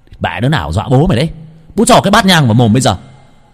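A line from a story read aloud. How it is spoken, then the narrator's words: Shouting. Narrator (Vietnamese): Nam hét lên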